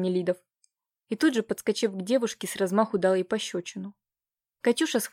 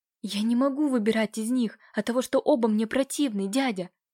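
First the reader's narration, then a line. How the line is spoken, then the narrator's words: Frightened, forced bravery. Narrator (Russian): Храбрясь, пролепетала Катя, невольно пятясь от разъяренного Нелидова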